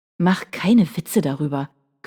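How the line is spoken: Growling. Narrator (German): knurrte er

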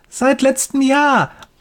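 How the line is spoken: Excited boy calling. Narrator (German): ruft der Junge begeistert

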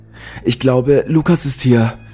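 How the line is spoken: Excited. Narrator (German): sagte mein Kumpel aufgeregt

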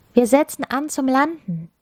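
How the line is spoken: Shouted. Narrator (German): rief die Kristallkönigin

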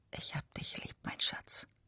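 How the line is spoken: Tender whisper. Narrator (German): Er flüstert

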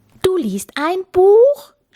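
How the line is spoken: Captain shouting. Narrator (German): schrie Kapitän Kugelbauch

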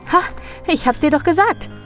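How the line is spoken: Calling out. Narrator (German): Vasilisa rief

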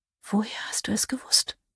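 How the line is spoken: Whisper. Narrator (German): flüsterte sie

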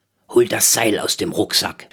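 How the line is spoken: Murmured. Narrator (German): murmelte Rolf

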